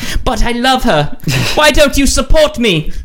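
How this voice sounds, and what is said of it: Put-on British accent. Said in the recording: “Now this Japanese man has a British accent.”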